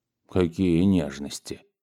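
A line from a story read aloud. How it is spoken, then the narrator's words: Grumbling. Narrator (Russian): проворчал он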